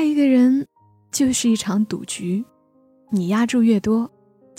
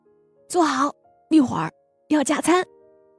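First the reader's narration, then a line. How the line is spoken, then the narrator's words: Happy loud shout. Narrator (Chinese): 小猫开心的冲着大狗大声喊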